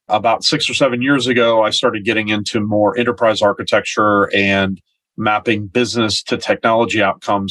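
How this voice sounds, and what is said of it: American accent. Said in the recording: “that doesn't sound like a New Zealand accent. So I'm originally from the United States”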